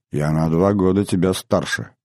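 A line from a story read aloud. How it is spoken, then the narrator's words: Soft. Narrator (Russian): мягко сказала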